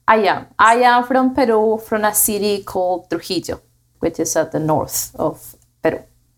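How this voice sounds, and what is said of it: Peruvian Spanish accent. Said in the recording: “You've got an accent, so obviously it seems a little exotic. ... I know you're from Peru.”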